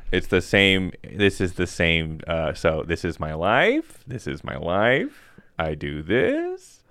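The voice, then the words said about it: Impression of an autobiographical stand-up comic. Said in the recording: “my impression of an autobiographical comic”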